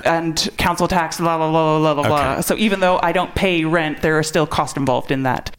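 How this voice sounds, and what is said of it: Canadian accent. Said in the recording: “I can hear from your accent, you're from Canada?”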